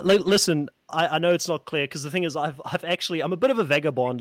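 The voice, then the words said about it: Mixed South African, Australian, Kiwi accent. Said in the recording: “my accent kind of phases into South African, Australian, Kiwi, a little bit of you know, I can see the British thing as well”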